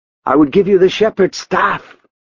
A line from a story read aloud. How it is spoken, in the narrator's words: Dietrich snapped